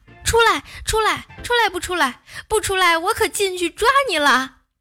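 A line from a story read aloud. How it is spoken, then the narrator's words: Shouting. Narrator (Chinese): 瑶瑶只有…喊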